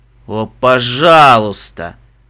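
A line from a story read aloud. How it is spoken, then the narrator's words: Moan. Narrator (Russian): простонал Фестрал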